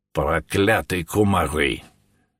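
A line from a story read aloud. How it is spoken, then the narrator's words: Grumbling. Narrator (Russian): проворчал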